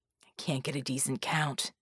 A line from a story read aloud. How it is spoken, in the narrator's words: he hissed